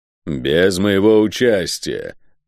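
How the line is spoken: Growling. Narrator (Russian): прорычал северянин

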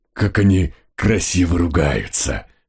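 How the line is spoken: Dog breathing out enviously. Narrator (Russian): Завистью выдохнул мой пес

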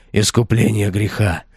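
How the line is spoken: Exclaimed. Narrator (Russian): воскликнул он

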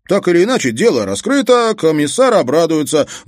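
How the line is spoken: Loud. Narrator (Russian): громко сказал Халварсон

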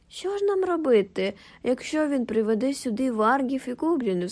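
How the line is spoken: Cried out. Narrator (Ukrainian): скрикнув

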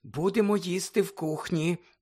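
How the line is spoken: Whisper. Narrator (Ukrainian): прошепотіла місіс Уізлі

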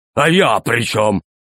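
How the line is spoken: Stern question. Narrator (Russian): спросил строго Громозека

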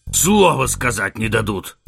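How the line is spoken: Giant's growl. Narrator (Russian): рыкнул исполин

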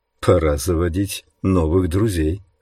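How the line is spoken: Soft. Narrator (Russian): сказал Джош мягко

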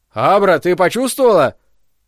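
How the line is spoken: Shouting. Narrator (Russian): крикнул

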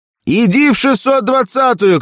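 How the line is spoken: Shout. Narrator (Russian): крикнул Петя

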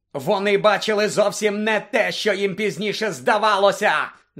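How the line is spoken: Wild yell. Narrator (Ukrainian): заволав диким голосом Блек

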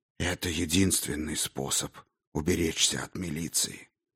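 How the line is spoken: Whisper. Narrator (Russian): шептал Дроган

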